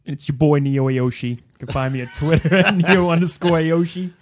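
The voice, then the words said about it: Exaggerated put-on accent. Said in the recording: “He's doing like a new accent here. ... Dial that back”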